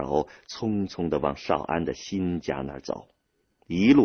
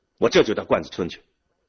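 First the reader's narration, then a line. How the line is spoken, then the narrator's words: Angry. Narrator (Chinese): 孙少安一听这事儿，愤怒使他的脸涨得通红，他对父亲说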